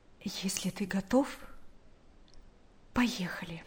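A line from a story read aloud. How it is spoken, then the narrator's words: Quiet. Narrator (Russian): Наташа тихо сказала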